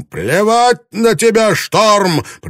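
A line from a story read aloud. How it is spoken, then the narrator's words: Roaring. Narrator (Russian): проревел Блэкторн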